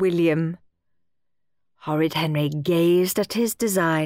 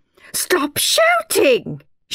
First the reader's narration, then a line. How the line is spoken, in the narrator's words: shouted Miss Battleaxe